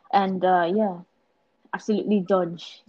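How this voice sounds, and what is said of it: Attempted Welsh accent. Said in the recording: “That's my Welsh accent.”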